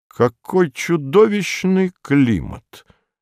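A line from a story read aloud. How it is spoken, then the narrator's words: Calm remark. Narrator (Russian): заметил спокойно американский посол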